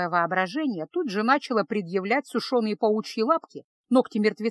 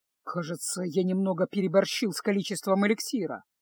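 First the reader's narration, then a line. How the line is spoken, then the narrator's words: Muttered. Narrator (Russian): буркнул Кайл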